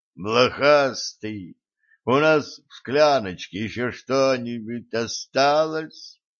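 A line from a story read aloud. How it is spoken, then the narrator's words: Groaning. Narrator (Russian): простонал друид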